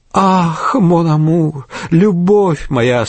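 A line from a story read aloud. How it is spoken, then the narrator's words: Passionate moan. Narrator (Russian): стонала Адель фон Стерча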